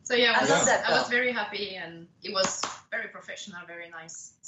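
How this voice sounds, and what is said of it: Speaks with a noticeable accent. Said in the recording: “I love this accent.”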